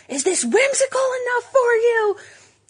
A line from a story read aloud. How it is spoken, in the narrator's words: she was yelling across aisles